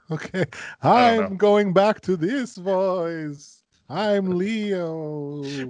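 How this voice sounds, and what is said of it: Scary put-on character voice. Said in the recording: “Why is this like the scary? Why is this a scary voice?”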